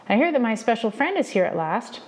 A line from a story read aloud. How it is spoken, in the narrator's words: called out